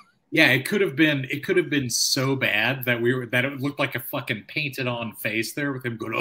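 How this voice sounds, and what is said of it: Usual voice. Nothing is said of it.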